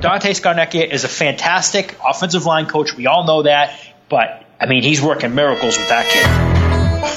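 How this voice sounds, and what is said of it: Thick regional accent. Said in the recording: “I didn't realize how thick my accent was.”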